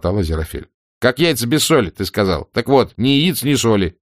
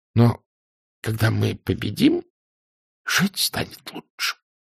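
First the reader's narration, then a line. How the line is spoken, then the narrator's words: Hoarse. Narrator (Russian): хрипло проговорил ангел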